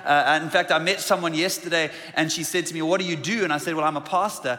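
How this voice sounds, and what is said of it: Speaks with a non-local accent. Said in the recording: “I do have a funny accent”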